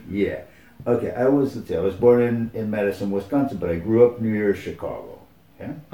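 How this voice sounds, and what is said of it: American accent. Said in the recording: “you probably knew that I was American ... I could hear the accent”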